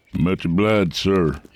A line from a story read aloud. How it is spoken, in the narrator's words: he said, and I could hear in his voice he was tired